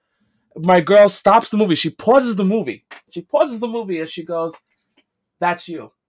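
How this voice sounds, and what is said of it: Strong New York accent. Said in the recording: “that strong type New York accent ... she's got that strong accent that you have”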